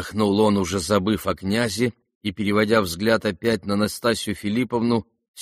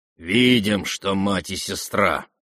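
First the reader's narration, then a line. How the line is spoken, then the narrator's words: Through clenched teeth. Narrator (Russian): процедил сквозь зубы Рогожин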